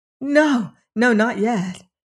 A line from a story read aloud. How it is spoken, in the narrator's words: she cried quickly